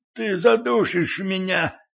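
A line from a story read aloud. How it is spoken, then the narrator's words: Choked wheeze. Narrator (Russian): прохрипел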